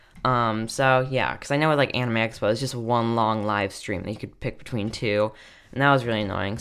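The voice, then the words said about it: Tired, draggy voice. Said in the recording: “I'm sorry if I sound tired ... my voice sounds really, like, draggy”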